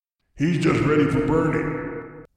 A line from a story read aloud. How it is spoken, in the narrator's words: said the dark man with a growl of triumph